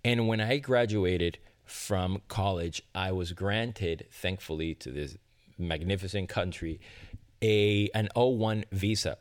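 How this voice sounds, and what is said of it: Immigrant's foreign accent. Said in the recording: “some of my mispronounced words or my accent, I am a proud immigrant”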